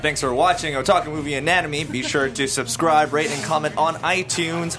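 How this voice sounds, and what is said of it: Radio announcer voice. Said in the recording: “That was my best radio announcer voice.”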